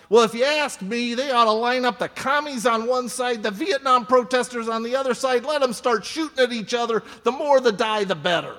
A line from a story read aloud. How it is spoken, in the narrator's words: Troy just all of a sudden blurts out